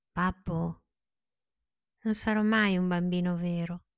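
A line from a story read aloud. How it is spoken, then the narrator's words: Whispered. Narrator (Italian): gli sussurrò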